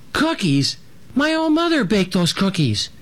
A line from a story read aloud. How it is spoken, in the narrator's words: Little Jim squeaked